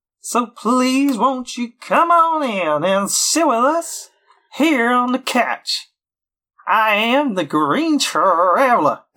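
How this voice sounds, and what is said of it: Televangelist preacher impression. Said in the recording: “my best televangelist impression”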